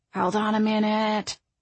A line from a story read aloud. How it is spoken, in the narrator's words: Frankie said softly